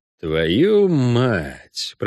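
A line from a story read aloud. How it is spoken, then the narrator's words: Muttered curse. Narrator (Russian): пробормотал ведьмак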